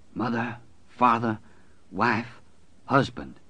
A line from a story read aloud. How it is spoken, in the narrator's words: Mother Abigail whispered